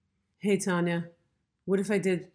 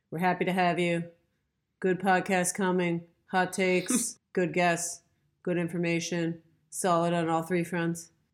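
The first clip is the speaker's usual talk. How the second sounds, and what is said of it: Flat monotone voice. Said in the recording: “the Fox and Fallon monotone voice, just like Bill Belichick”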